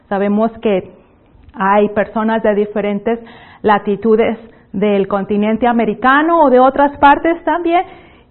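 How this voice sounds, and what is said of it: Northeastern Mexican Spanish accent, somewhat clipped. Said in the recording (Spanish): “mi acento, tal vez a algunos les va a parecer muy extraño ... mi acento es de una región del noreste de México, y por eso es un poco golpeado”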